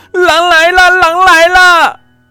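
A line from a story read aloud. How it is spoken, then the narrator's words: Child shouting desperately. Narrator (Chinese): 这次放羊的孩子拼命的大喊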